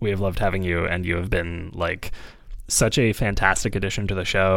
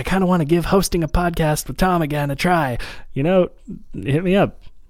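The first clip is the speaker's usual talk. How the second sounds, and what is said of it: Imitates another person's voice. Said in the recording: “Was that an okay impression of you? ... This is my Kate voice.”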